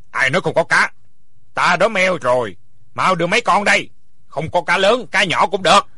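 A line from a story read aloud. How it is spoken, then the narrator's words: Angry. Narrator (Vietnamese): Bảo Tượng tức giận nói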